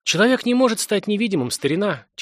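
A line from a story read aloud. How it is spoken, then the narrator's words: Heavy sigh. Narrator (Russian): тяжело вздохнул следователь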